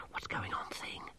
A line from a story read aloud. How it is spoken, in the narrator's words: Masklin whispered